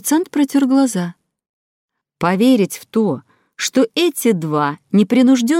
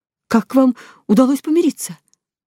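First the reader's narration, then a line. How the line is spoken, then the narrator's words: Trembling voice. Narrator (Russian): дрожащим голосом спросил он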